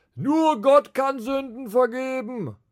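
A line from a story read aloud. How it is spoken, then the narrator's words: Called out. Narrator (German): rief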